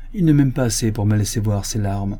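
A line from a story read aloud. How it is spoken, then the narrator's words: Rather harsh. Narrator (French): dit-elle assez durement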